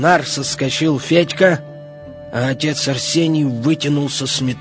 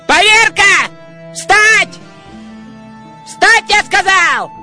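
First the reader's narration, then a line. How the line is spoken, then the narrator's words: Shouting. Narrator (Russian): Веселый кричал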